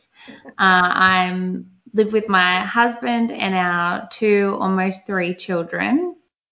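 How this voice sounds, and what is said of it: Australian accent. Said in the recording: “I'm from Australia. Yes, as you can hear by my voice.”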